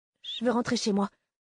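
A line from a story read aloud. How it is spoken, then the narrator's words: Breathed whisper. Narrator (French): souffla Jesse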